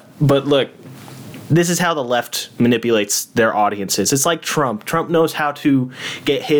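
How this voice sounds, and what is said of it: Usual voice. Nothing is said of it.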